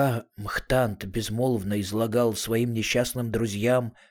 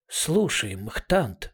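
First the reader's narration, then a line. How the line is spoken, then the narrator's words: Whisper. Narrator (Russian): сказала она шепотом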